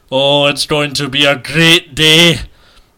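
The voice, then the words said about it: Bad put-on Scottish accent. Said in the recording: “Scottish Accents ... I am terrible at it ... See how bad I am at that?”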